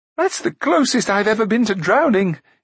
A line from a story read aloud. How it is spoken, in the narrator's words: he gasped